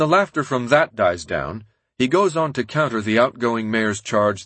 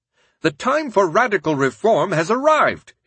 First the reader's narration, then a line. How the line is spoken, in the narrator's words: he shouts